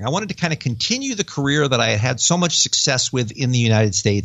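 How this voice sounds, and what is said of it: American accent. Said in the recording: “my dumb American accent”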